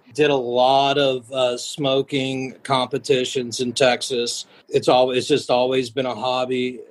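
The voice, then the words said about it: Non-local, likely Texan accent. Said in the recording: “You can tell from the accent that I am not originally from up here.”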